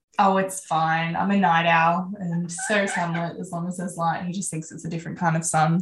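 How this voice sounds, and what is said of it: Australian accent. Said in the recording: “in Australia, if you couldn't tell by the accent.”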